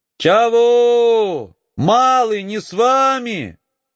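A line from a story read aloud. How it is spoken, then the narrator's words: Distant shout. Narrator (Russian): кричала Акулина из-за отвершка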